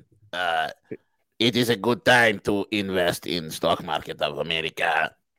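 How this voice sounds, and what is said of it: Zelensky impression. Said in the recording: “someone wants me to do a Zelensky impersonation.”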